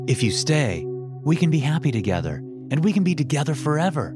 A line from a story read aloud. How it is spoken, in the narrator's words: Vincent said excitedly